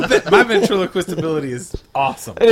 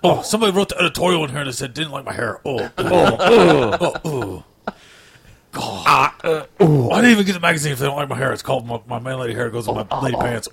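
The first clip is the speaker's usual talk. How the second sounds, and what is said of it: Imitates another person's voice. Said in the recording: “This is the worst impression of me ever.”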